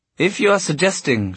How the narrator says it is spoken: she said in a frozen voice

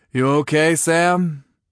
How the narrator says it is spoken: Ryan asked, and his voice was husky

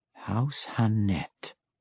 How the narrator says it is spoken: Matron Malice whispered

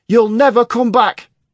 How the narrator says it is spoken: screamed

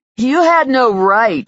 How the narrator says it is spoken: whined Stan

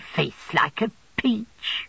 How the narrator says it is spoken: returned Miss Mocha, laughing on me as she came

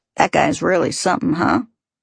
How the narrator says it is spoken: Uncharacteristically, Cliff snorted dismissively

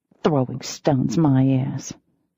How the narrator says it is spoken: I muttered

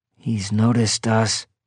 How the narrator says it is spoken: I said softly

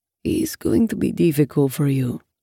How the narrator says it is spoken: Raoul murmurs, and I can hear the worry in his voice

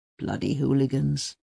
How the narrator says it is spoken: Uwe mutters

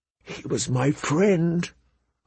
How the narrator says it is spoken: Arya whispered into her plate, so low that no one could hear

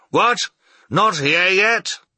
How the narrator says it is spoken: he called out again, in the most impatient tone imaginable

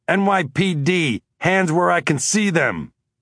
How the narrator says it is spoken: I yelled

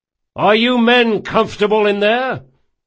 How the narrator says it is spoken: Locke shouted to be heard above the din

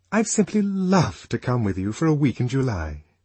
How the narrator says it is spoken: aloud and more warmly than ever

